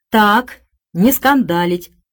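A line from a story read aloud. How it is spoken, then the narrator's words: Stern young man. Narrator (Russian): строго вступил молодой человек с красным лицом, выполнявший обязанности маркера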